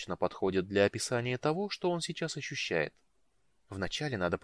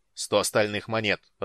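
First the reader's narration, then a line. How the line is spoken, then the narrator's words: Growl. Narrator (Russian): рыкнул Ариакас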